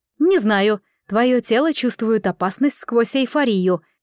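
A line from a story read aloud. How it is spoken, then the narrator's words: Tense bark. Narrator (Russian): рявкнула Ягу на взводе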